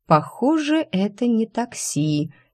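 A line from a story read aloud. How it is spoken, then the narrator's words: Quiet. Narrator (Russian): тихо произнесла я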